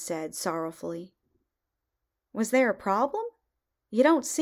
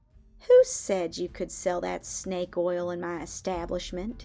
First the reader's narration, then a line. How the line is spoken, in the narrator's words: Morgenstern sneered